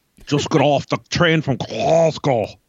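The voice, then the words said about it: Put-on Scottish accent. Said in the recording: “working on my Scottish accent”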